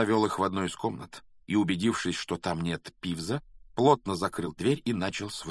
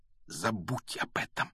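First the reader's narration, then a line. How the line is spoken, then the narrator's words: Almost silent whisper. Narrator (Russian): почти беззвучно прошептал Гарри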